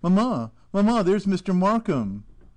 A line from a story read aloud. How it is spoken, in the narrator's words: a tiny voice from within it roused me by exclaiming